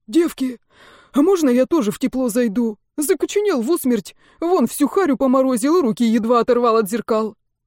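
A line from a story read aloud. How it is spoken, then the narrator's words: Hoarse pleading. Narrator (Russian): эта куча тряпья взмолилась хриплым голосом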